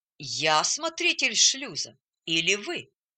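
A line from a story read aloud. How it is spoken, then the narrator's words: Calm objection. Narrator (Russian): спокойно возразил атакованный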